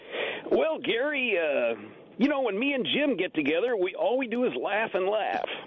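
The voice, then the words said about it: Imitates another person's voice. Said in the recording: “You want to let out a little Skilling while you're here?”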